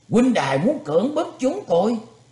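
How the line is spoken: Shouted reply. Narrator (Vietnamese): Hạ Đại Niên quát mắt đáp

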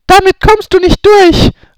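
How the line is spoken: Desperate calling out. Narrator (German): rief Hermine verzweifelt

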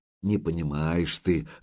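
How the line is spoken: Sighing. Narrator (Russian): вздохнул Духарев

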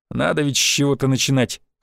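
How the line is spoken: Snorting. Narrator (Russian): хмыкнул первый

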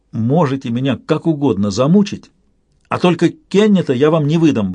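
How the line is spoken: Defiant. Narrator (Russian): бросил он с вызовом

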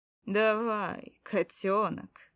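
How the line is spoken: Lewd commanding voice. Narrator (Russian): самым развратным голосом на свете приказал Баринов

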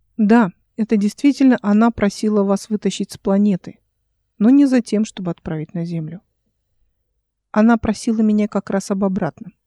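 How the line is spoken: Calm. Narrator (Russian): спокойно ответила Эл

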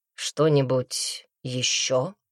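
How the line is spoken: Drawled. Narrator (Russian): протянул Брикс

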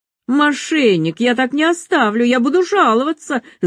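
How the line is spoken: Indignant yelling. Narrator (Russian): завопил Спирит

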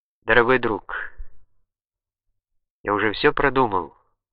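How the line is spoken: Slow, quiet. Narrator (Russian): продолжал он медленно, тихим голосом

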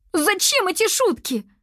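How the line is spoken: Tearful exclamation. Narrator (Russian): со слезами в голосе воскликнула Аниса

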